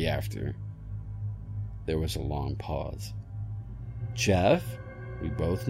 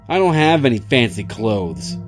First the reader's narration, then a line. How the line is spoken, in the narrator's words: he yelled downstairs